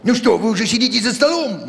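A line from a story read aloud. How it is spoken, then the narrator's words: Exclaimed. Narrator (Russian): воскликнул он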